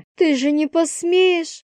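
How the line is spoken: Sobbing. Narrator (Russian): всхлипнула она

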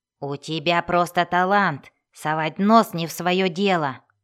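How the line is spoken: Hoarse snap. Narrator (Russian): хрипло огрызнулся Бреннер

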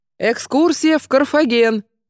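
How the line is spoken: Loud booming shout. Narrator (Russian): крикнул он зычно

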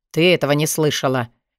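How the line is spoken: Sharp reply. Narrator (Russian): Резко ответил Алви

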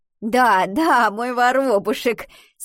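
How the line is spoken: Laughing. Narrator (Russian): смеялась Альвина

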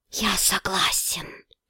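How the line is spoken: Whisper. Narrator (Russian): прошептал Грохошен

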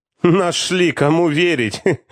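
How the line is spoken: Bursting into laughter. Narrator (Russian): Буквально расхохотавшись, отреагировал

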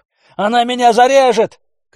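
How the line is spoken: Peasant man shouting. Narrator (Russian): крикнул мужик

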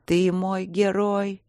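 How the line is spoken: Moaning. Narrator (Russian): простонала я

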